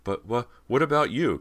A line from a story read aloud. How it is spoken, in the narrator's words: Cody stammered